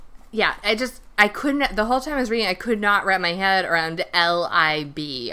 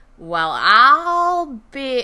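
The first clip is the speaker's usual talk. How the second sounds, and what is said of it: Put-on Southern accent. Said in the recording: “if you have a real Southern accent”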